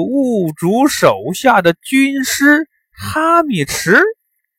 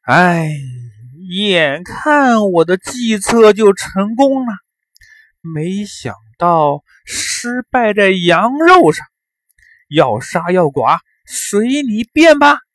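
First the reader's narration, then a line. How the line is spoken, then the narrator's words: Long sigh. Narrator (Chinese): 哈密迟长叹一声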